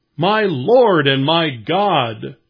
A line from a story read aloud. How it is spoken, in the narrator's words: Thomas exclaimed